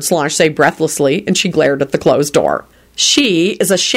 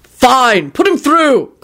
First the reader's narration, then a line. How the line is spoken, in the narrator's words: Quentin yelled